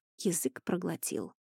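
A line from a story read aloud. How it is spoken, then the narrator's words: Whisper. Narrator (Russian): прошептал Эней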